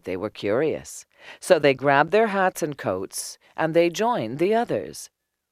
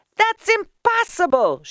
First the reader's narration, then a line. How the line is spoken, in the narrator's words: shouted the people in the houses